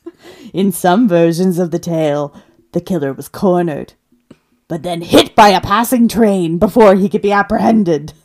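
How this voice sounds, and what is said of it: Spooky dramatic narrator voice. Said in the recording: “your scary voice ... You don't like my BuzzFeed Unsolved voice?”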